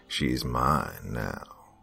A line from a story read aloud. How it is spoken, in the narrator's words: The ghost said in a deep tone